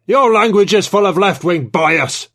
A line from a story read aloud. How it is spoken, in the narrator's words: Trevithick bellowed